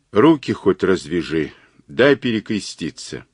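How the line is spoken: Weak whisper. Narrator (Russian): Кузьмич, вяло шевеля бледными губами, прошептал

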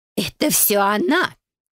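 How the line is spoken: Growl. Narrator (Russian): Рыкнула Йоль

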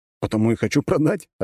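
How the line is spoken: Laughing. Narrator (Russian): рассмеялся я

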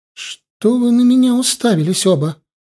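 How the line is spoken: Exclamation. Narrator (Russian): воскликнула она

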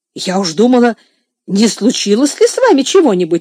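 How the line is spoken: Woman exclaiming. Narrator (Russian): воскликнула мисс Офелия

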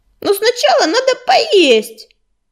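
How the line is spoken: Wailing howl. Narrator (Russian): взвыла Белочка

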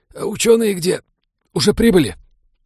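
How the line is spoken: Strangled wheeze after coughing. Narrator (Russian): Станислав покашлял безуспешно и сдавленно прохрипел

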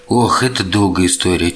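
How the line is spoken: Heavy sigh. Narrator (Russian): тяжело вздохнул вампир

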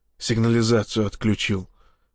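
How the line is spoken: Whispered. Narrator (Russian): прошептал он

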